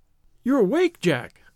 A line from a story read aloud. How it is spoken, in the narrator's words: she cried, with a nervous laugh